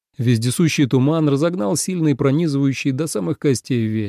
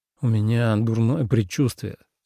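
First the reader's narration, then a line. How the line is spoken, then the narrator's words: Displeased mutter. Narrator (Russian): недовольно пробормотал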